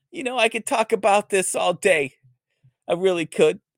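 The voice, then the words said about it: Boston accent, imitates another person's voice. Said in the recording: “You could do a great impression if you talked with a Boston accent. Let me see if I can do my Bill Burr impersonation.”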